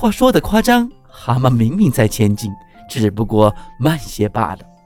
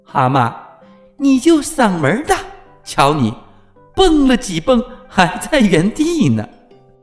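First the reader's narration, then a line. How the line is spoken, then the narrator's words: Mocking. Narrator (Chinese): 兔子 忍不住笑话他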